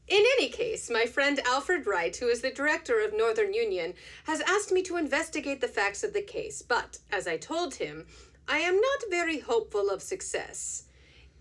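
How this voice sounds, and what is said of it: Put-on French accent. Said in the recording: “He is from Belgium, and he has a French accent. So this is what I assume he sounds like in my mind.”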